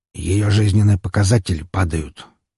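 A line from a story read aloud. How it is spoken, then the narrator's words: Quiet male speech. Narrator (Russian): тихо сказал стоящий рядом со мной Григорий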